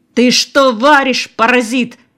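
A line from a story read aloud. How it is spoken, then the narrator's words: Full-throated yell. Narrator (Russian): заорал он во всю глотку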